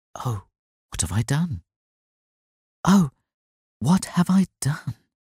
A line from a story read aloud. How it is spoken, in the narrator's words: she murmured